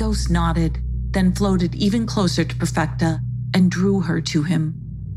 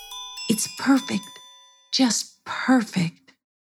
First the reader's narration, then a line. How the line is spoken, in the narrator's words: sighed in a dreamy voice